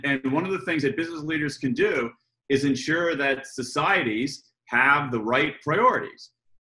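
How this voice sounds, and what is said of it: American accent, energetic delivery. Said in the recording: “obviously I'm an American, um, as, you, as you all can tell by my, my accent and my, you know, uh, over energy here.”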